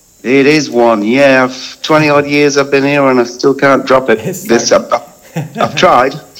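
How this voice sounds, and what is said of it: English accent. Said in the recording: “Is that an English accent that I can pick?”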